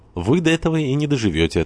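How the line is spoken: Cheerful deep contralto. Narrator (Russian): отвечала весело своим густым контр-альт Глафира

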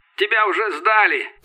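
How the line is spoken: Shouting. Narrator (Russian): кричал Федор

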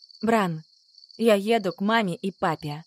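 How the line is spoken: Tired. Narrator (Russian): устало ответила я

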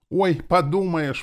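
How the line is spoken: Exclamation. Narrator (Russian): воскликнула она

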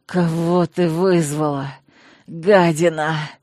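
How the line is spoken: Hoarse wheeze. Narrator (Russian): прохрипел лорд

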